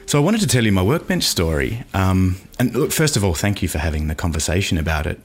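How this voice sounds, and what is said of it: Australian-accented male speech. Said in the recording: “I have an accent”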